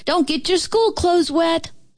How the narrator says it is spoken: hollered

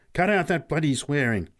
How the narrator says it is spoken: snapped Pat angrily

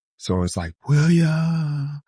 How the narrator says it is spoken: It whispers

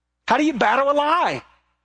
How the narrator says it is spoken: Somebody shouted out

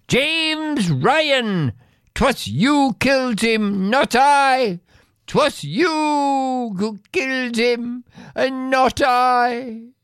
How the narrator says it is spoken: she scream

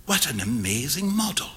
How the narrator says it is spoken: whispered Huey

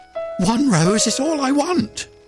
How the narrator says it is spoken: cried the nightingale

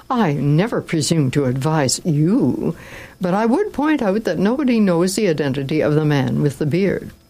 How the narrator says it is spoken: exclaimed Don Camillo

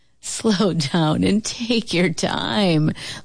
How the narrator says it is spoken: laughed Uncle Booker T

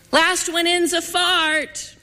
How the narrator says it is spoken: I screamed

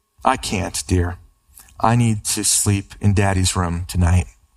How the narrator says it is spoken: smiling, the mother gave him a warm and reassuring hug and said tenderly

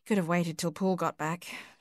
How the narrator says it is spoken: murmured

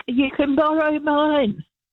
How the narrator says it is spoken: I yelled back

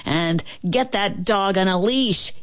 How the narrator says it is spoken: he yelled at the barkers

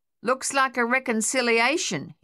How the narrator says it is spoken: shouted back

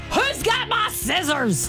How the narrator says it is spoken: I was screaming through the house

